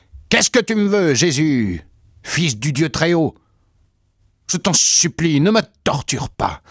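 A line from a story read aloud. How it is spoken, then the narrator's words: Loud screaming plea. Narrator (French): il poussa des hurlements et vint se jeter à terre en criant d'une voix forte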